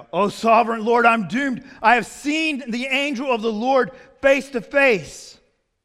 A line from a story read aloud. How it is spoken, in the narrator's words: When Gideon realized that it was the angel of the Lord, he cried out